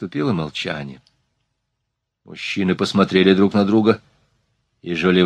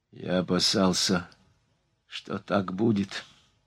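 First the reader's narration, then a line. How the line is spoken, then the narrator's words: Hoarse voice. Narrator (Russian): сказал охрипшим голосом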